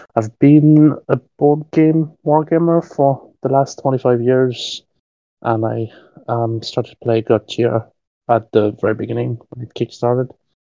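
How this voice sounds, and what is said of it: French accent. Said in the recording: “you will hear my accents. I'm actually French”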